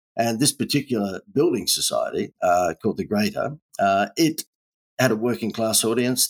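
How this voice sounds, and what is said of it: Australian accent. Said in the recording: “as you can tell from my accent, I'm down under”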